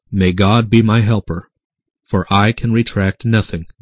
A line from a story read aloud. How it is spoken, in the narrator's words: the doctor himself said calmly